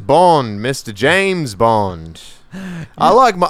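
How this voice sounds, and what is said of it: Horrible British-Southern James Bond impression. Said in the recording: “You're doing like a British Southern ... he's over here trying to do this horrible do you, Southern accent.”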